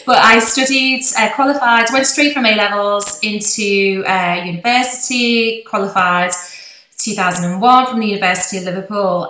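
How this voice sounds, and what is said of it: Posh Liverpool accent. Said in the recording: “my accent, it's actually quite a posh Liverpool accent ... when I teach down south, people tell me it's very broad”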